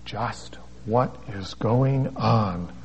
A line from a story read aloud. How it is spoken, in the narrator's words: I whispered to Debbie